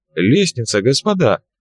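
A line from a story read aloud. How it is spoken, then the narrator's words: Exclaiming. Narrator (Russian): воскликнул профессор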